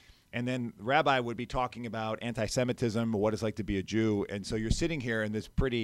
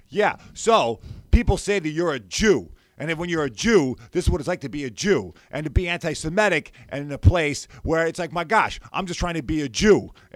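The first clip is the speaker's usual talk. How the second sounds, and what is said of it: Imitated New York accent. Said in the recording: “he's got this New York accent that comes out ... the ways that one can mimic my voice”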